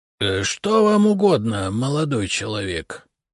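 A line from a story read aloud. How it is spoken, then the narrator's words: Creaky old man's voice. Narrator (Russian): скрипучим голосом осведомился старичок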